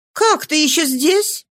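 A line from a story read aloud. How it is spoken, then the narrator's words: Surprised exclamation. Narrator (Russian): воскликнула она, заметив его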